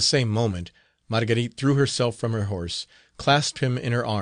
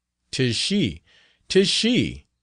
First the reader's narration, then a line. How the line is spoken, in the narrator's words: exclaimed he